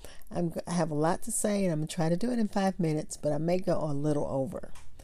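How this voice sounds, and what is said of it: Voice affected by allergies. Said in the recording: “forgive my voice. It's allergy season in Texas. So just forgive how my voice sounds.”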